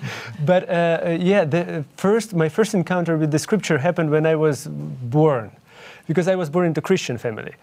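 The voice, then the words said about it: Ukrainian accent. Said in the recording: “I'm originally from Ukraine, and that's why you can hear my accent.”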